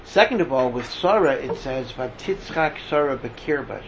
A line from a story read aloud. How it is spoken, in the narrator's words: she laughed to herself